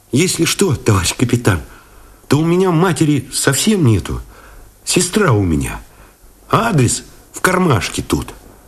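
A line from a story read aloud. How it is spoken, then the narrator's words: Sighing, sob, boyishly guilty. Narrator (Russian): вздохнул, вроде всхлипнул, по-мальчишески виноват, сказал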